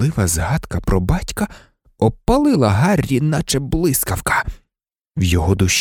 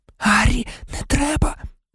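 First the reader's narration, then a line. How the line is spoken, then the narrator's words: Horrified whisper. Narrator (Ukrainian): нажахано прошепотіла Герміона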